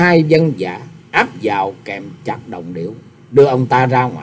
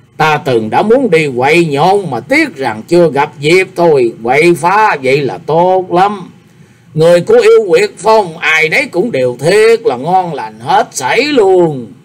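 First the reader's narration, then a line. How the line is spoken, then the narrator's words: Laughing loudly, clapping. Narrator (Vietnamese): Đồng Điều vỗ tay cười to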